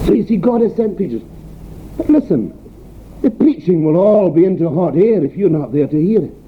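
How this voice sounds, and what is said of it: Broad Scottish accent. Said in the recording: “my broad Scottish accent”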